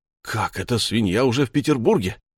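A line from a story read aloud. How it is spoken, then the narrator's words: Exclaimed. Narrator (Russian): воскликнул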